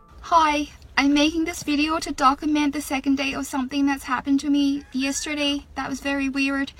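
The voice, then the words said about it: Irish accent. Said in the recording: “I woke up with an Irish accent”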